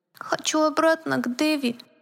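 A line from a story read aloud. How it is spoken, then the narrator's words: Teddy bear's thin voice. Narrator (Russian): произнес плюшевый мишка тоненьким голоском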